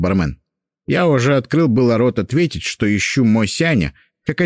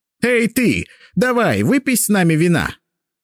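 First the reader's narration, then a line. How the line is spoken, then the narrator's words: Shout. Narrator (Russian): крикнул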